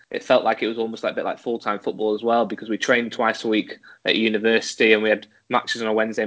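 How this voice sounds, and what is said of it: English accent. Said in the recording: “being uh, English, uh, as you can tell by my accent”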